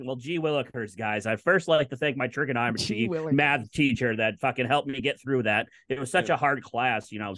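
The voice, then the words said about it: Imitates another person's voice. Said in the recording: “Your Matthew Slater impression is is the best thing you've done in a long time.”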